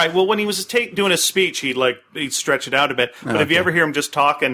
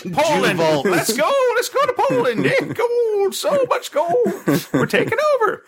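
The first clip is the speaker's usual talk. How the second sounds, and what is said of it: Hitler impression. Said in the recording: “That's actually how Hitler talked. ... that's my Hitler. ... Pretty good. ... Pretty good impersonation.”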